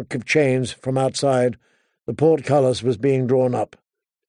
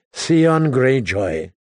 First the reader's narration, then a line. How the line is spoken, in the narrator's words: Tyrion sighed